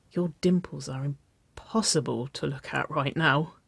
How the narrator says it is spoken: Waverly whispered, her voice a half-groan

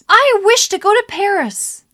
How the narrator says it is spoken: Excitedly, says

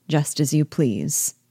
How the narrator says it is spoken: without raising his head, coolly replied

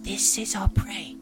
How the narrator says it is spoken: Wipa whispers

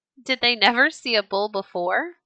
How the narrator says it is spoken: laughed one of the men

